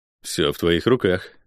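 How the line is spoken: Grim smirk. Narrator (Russian): мрачно усмехнулся я

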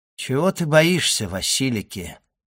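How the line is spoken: Soft, tender yet proud. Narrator (Russian): ответил Селим, мягко, ласково и в то же время гордо

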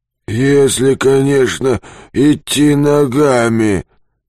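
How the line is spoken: Hoarse, from behind. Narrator (Russian): хрипит сзади Юрковский

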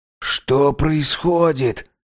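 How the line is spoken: Whisper. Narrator (Russian): прошептал Саймон

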